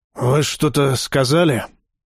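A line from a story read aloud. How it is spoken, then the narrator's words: Hoarse voice. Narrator (Russian): Хриплый голос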